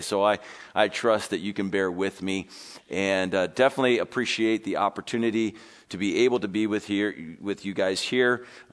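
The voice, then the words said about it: Congested, strained sick voice. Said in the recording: “I'm still got this congestion and it's affecting my throat. So I apologize for my voice sounding as bad as it does ... it does sound a little bit better than what it does today”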